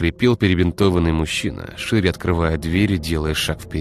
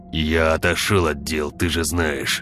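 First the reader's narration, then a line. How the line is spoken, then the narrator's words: Hissing. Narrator (Russian): прошипел он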